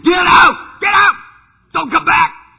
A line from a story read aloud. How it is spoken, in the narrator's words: I was yelling at God